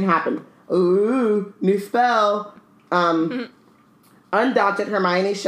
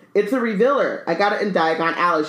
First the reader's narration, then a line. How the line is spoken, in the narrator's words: she said